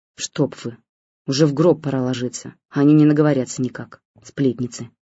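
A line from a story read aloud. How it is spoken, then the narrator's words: Spiteful, through gritted teeth. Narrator (Russian): процедила в их адрес Нонна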